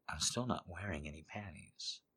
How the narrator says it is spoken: said softly

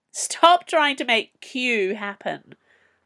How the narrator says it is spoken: Fern had laughed once

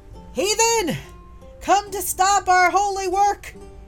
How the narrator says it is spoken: he yells

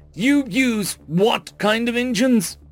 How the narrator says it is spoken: the incredulous shout

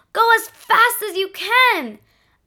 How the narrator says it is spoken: A man ... he yelled with fright

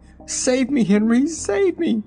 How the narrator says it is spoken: the poor woman cried

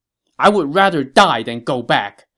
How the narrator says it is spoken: he shouted

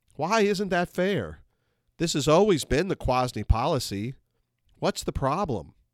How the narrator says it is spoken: Very calmly, I asked her

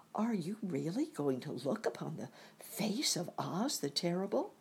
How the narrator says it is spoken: one of them whispered

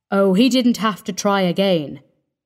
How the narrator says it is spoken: said Parvis grimly

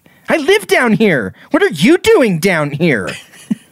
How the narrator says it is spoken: Without hesitation snaps back

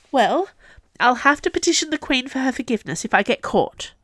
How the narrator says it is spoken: Neame said desperately

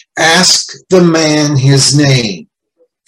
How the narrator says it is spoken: An American colonel said sharply

